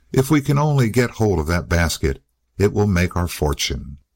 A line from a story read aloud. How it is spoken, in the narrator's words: they found time to whisper to each other